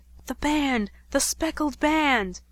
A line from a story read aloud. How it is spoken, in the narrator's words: Watson very kindly writes that I whispered